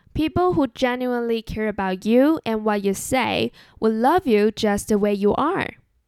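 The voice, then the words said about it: Chinese-accented English. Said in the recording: “I just can't get rid of my Chinese accent”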